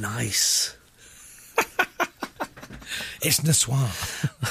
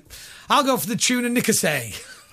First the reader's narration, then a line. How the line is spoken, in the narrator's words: she loudly and proudly went